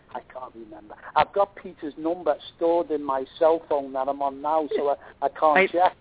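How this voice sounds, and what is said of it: English accent from near Liverpool. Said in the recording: “I love that accent. Isn't that the cutest thing? ... you were from Liverpool. You're close to Liverpool”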